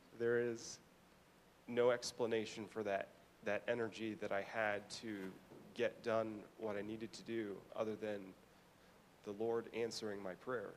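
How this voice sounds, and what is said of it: Emotional voice. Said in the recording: “I'm still sleep deprived. That's why I'm a little emotional right now.”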